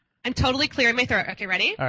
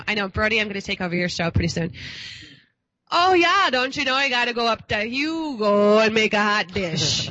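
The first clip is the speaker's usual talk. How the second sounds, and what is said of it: Put-on Minnesota accent. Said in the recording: “Why don't we bust out the Minnesota ... That was really good.”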